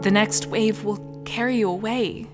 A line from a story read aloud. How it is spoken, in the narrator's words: cried, trembling